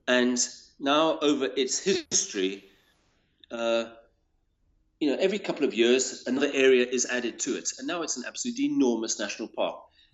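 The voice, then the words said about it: South African accent. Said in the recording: “as you'll hear from my accent, I live in South Africa”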